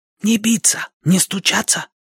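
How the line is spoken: Whispered. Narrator (Russian): прошептала она

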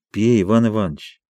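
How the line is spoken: Tender. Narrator (Russian): сказал он нежно

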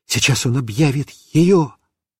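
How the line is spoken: Whisper. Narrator (Russian): я шептал папе

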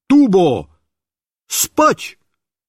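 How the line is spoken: Shout. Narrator (Russian): Я крикнул

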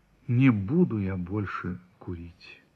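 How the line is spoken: Dejected, shaken. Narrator (Russian): вздрогнул и сказал упавшим голосом

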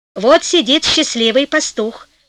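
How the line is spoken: Plain fairy voice. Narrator (Russian): сказала фея

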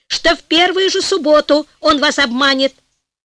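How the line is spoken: Heated shout. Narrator (Russian): в запальчивости закричал главный министр

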